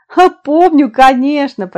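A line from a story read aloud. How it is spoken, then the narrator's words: Speaking through laughter. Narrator (Russian): проговорила она сквозь смех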